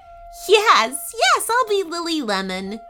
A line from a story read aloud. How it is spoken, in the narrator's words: she giggled